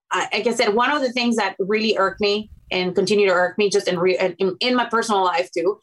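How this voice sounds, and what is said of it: Non-native foreign accent. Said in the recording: “I'm not from this country, because of my accent,”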